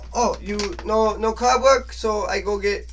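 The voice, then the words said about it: Badly done put-on foreign accent. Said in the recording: “I know I'm butchering the fuck out of this accent”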